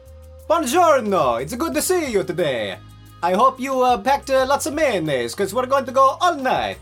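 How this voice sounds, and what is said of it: Put-on Italian accent. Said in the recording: “an Italian accent.”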